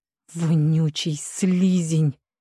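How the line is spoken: Hissing. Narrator (Russian): прошипел колдун

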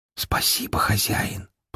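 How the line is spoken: Whisper. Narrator (Russian): прошептала она

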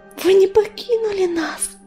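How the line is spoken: Whispered. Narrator (Russian): прошептала листочка

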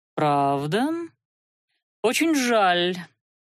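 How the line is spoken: Drawl. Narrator (Russian): протянул принц

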